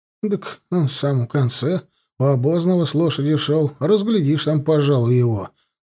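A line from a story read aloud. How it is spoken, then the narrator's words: Grumbling. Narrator (Russian): проворчал штуцерник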